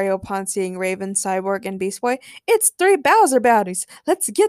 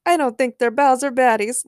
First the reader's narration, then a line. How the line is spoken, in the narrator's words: laughed Mario as he wiped tears of joy from his face